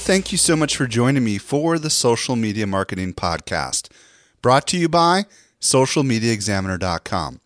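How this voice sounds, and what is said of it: Voice congested from a cold. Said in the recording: “I've got a little bit of a cold”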